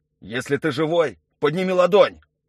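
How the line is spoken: Shouted. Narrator (Russian): крикнул Юра

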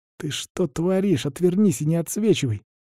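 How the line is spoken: Hiss. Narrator (Russian): зашипел сосед

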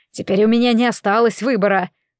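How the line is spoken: Sad voice. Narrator (Russian): Голос его звучал печально

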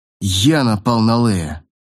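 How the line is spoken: Through gritted teeth. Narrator (Russian): процедил Джан сквозь зубы

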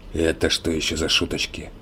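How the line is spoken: Hoarse. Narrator (Russian): прохрипел он

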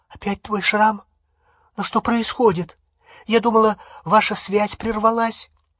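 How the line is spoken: Frightened question. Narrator (Russian): Гермиона испуганным голосом спросила

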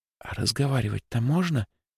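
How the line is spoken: Whispered question. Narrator (Russian): шепотом спросила Лёлька

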